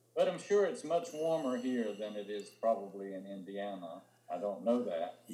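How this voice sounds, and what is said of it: Southern American accent. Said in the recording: “you're going to like his accent. He still has a southern accent and a beautiful southern accent.”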